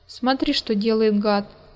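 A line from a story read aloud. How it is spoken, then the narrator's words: Exclamation. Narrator (Russian): воскликнул Руслан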